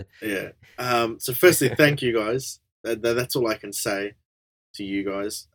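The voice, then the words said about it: German accent. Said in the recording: “German accent.”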